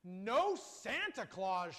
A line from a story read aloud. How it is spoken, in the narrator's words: snorted